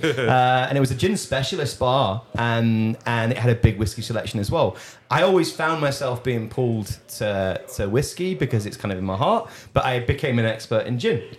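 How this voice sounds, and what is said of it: Posh English accent. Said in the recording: “my posh English accent”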